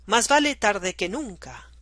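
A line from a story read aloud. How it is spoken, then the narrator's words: Exclamation. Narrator (Spanish): El presidente exclamó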